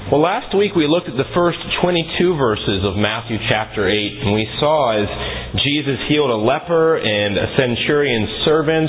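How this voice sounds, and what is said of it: Voice a little different, cold-affected. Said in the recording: “I've been battling a cold this week. You probably could tell my voice is a little different”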